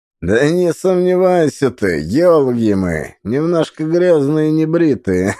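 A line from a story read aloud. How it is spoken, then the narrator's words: Guffawing fat man. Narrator (Russian): захохотал толстый мужик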